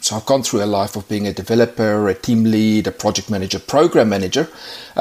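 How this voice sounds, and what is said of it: South African accent. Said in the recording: “I've got a bit of a funny accent going on, so originally from South Africa”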